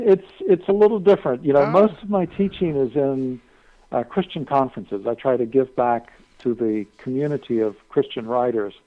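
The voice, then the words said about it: Slightly British-sounding accent. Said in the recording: “have you always had your accent? ... Yeah, you have an accent. ... It's kind of sounds UK-ish, yeah.”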